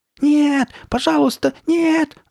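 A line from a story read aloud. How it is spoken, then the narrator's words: Terrified scream. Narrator (Russian): завопил он, выпучив глаза от страха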